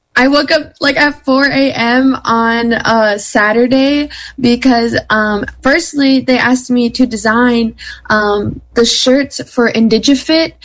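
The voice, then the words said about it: Hoarse, strained, mostly lost voice. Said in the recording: “if you can't tell by my voice. I lost it.”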